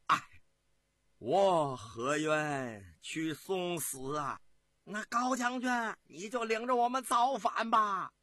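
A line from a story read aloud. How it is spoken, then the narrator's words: Long sigh. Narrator (Chinese): 长叹了一声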